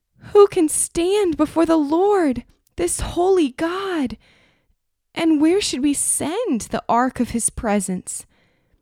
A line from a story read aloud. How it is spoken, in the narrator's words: The people cried, saying